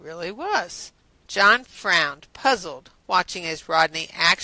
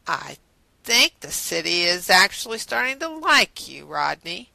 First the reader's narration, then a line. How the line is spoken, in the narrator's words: John said in a taunting drawl